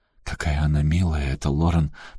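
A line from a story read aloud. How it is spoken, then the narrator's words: Whispered. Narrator (Russian): прошептала Салли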